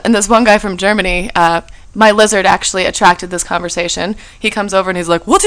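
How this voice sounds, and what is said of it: Usual voice. Nothing is said of it.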